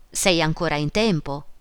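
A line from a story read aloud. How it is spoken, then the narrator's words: Exclaiming. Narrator (Italian): esclamò lui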